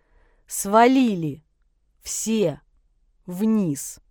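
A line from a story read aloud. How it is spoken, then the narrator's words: Clipped, commanding. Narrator (Russian): отчеканил Ершов, и что-то в его голосе заставило парней послушаться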